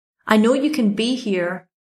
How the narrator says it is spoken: I shouted

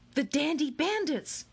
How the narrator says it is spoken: shouted Akimi

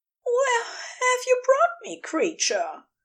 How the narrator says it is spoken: He lets his voice waver a little just a touch of a wobble in the attempt at firmness

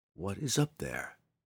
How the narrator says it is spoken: the drow whispered to himself

